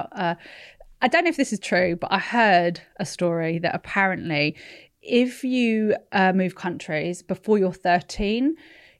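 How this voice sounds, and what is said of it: London accent. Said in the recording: “it's a pure London accent”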